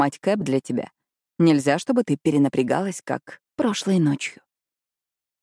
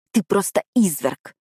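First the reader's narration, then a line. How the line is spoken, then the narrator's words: Hiss. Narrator (Russian): прошипела я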